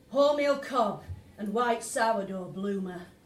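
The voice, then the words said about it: Vague northern English accent. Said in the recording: “He replies in an accent that I can merely place as unspecified northern.”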